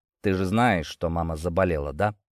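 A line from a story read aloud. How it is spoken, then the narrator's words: Trying to sound calm. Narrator (Russian): спросил, стараясь, чтобы голос звучал спокойно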